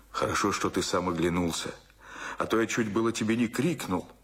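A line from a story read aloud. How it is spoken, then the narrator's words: Glad, hurried whisper. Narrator (Russian): радостно и торопливо прошептал ему Дмитрий Федорович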